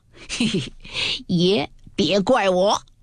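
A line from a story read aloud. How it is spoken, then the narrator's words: Laughing. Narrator (Chinese): 贝明也笑道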